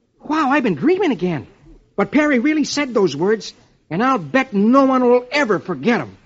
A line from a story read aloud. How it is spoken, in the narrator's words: Dick exclaims